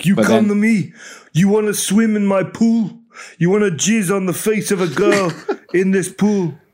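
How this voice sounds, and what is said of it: Put-on Italian mobster accent. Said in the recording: “That's my Italian mobster accent.”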